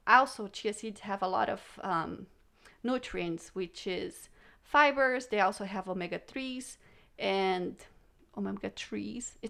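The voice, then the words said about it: Speaks with a non-native accent. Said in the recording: “It's my accent, sorry.”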